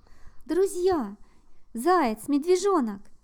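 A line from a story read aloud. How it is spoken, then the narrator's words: Excited small creature. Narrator (Russian): взволнованно сказал ежик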